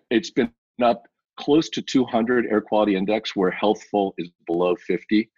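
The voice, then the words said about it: Slightly hoarse voice. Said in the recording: “I'm actually a little bit hoarse from doing it.”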